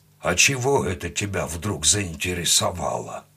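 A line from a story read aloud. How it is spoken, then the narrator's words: Mild grumble. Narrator (Russian): пробурчал, но без злости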